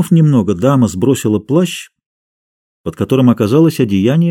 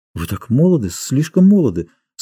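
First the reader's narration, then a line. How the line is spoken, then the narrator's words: Embarrassed lady's mumble. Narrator (Russian): смущенно пробормотала дама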